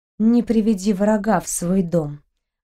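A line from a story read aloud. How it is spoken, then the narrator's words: Sigh. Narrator (Russian): вздохнула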